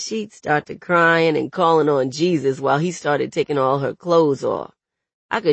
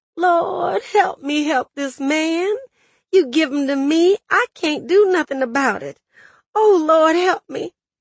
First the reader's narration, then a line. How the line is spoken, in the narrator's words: she'd moan